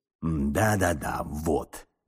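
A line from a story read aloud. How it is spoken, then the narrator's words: Muttering. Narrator (Russian): бормотал он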